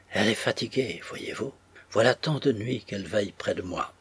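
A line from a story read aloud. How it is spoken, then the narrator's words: Quiet, murmuring. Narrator (French): disait tout bas à ceux qui étaient là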